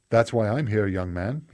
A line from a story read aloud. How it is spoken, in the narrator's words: said in a crisp British accent